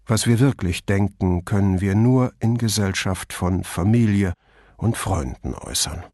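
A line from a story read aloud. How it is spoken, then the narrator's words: Added in normal voice. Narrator (German): Mit normaler Stimme fügte er hinzu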